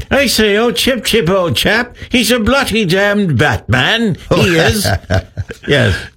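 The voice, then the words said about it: Put-on English accent. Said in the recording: “give me your English accent ... you do that so well”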